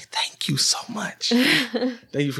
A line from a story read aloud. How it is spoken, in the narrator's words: under her breath he's kind of like